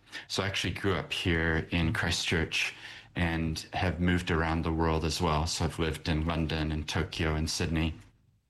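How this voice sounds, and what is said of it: American accent. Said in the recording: “I have an accent,... I'm from America originally”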